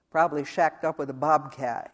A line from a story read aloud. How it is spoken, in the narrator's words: he said